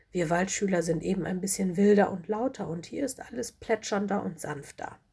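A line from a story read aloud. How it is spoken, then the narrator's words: Plain. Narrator (German): sagte Lola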